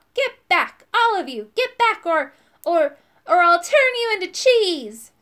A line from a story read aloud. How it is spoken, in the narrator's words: I heard myself shout